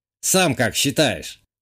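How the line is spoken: Snorting. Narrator (Russian): хмыкнул бывший игровой скрипт

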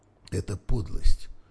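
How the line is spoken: Quiet speech. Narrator (Russian): негромко проговорил Миша

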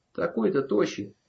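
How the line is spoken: Snorting chuckle. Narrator (Russian): хмыкнул первый

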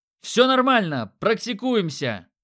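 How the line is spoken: Excited yell with laughter. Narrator (Russian): заорал я и рассмеялся охватившему меня боевому азарту

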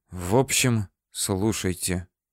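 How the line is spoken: Quiet conspiratorial tone. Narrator (Russian): начала она говорить тихим заговорщицким тоном

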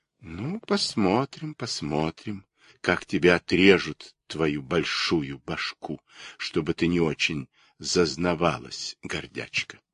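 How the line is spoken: Quiet. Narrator (Russian): саговая пальма тихо сказала соседке цикаде

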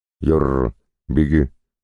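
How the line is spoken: Sharp bark. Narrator (Russian): рявкнул Кузьмич

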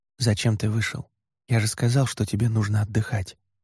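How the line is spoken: Muffled whisper behind hand. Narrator (Russian): прикрыв рот ладонью, шепнул Эван

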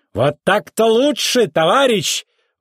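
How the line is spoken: Squealer exclaiming. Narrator (Russian): воскликнул визгун

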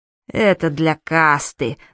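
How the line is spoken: Through clenched teeth. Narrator (Russian): сквозь зубы объяснил Гест

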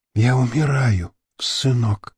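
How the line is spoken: Whisper. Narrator (Russian): прошептала она

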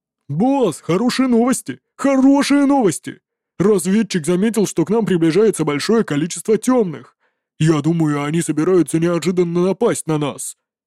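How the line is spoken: Shouting after bursting in. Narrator (Russian): закричал ворвавшийся внутрь Танбу

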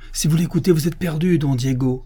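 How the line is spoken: Abbot exclaiming. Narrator (French): s'écria l'abbé

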